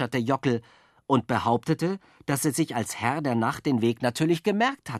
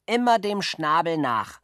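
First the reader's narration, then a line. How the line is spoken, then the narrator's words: Calling out. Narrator (German): rief er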